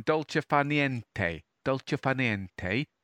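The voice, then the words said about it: Put-on Italian accent. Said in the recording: “I'll use my best Italian accent.”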